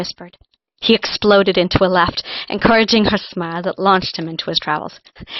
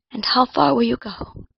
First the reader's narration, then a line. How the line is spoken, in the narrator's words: Colin whispered